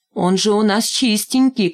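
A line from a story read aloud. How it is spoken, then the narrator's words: Shout. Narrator (Russian): крикнул Валька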